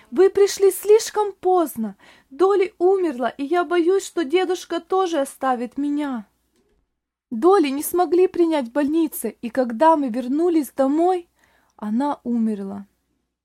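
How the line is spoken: Boy crying out, sobbing loudly. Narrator (Russian): мальчик громко рыдая, и закричал

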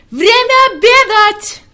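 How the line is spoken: Shouting at full strength. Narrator (Russian): Он изо всех сил закричал

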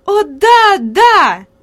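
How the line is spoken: Lively delighted exclamation. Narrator (Russian): живо воскликнула Хади, и лицо ее порозовело от восторга

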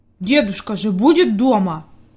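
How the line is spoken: Angry mutter. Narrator (Russian): буркнул Питер сердито

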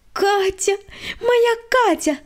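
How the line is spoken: Joyful squeal. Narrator (Russian): радостно завизжала Света

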